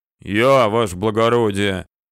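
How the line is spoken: Deep bass reply. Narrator (Russian): пробасил в ответ

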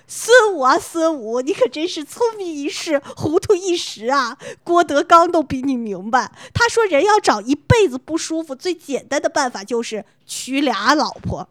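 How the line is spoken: Long sigh. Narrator (Chinese): 学长仰天长叹道

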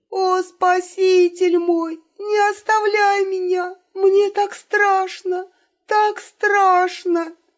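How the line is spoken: Convincing sob. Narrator (Russian): Очень натурально всхлипнула Елена

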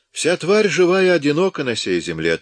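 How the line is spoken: Solemn. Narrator (Russian): торжественно произнес он

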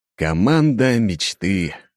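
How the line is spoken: Snorting. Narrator (Russian): хмыкнул я

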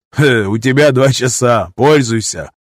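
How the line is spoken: Chuckling from the doorway. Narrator (Russian): хохотнули от входа

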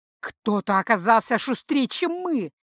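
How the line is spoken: Growl. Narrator (Russian): прорычал Майрал

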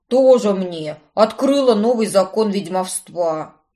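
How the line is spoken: Scornful snort. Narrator (Russian): фыркнул Брент-младший

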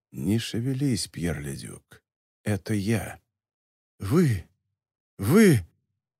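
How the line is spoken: Whispered. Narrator (Russian): прошептал

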